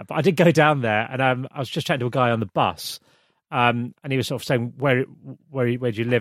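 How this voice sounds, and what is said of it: British (UK) accent. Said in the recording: “I'm from the UK, talking off my accent”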